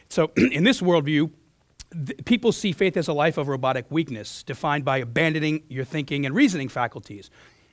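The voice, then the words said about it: Hoarse, strained voice. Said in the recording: “I lost my voice on Thursday”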